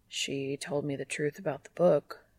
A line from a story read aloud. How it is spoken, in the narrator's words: he says quietly